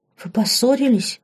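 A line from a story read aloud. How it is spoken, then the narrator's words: Frightened exclamation. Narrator (Russian): испуганно воскликнула Лорен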